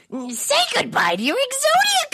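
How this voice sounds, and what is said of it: Imitates a cartoon character's voice. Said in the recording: “Do a great Weevil impression ... And you do it well”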